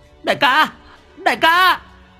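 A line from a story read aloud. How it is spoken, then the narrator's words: Demon's howl. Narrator (Vietnamese): tiếng con quỷ mõm rú lên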